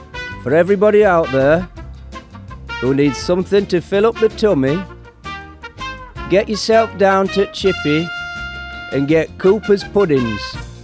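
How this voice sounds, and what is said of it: Slight northern English accent. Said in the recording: “It's probably going to have a slight northern accent.”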